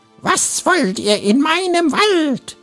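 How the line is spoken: Bloodcurdling shriek. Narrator (German): kreischte markerschütternd

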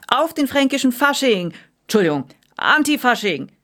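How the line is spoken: Belting out. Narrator (German): schmetterte der Kapitän

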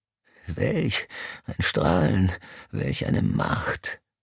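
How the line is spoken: Gasping. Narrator (German): keuchte Mr

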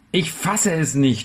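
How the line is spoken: Shout. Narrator (German): schrie ich

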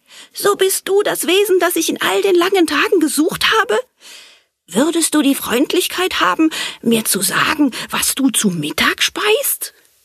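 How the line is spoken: Joyful call. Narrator (German): rief freudig

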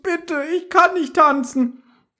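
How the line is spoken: Pleading. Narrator (German): flehte Justus

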